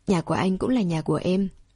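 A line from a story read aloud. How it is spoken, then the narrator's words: Whisper in ear. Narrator (Vietnamese): thì thầm bên tai anh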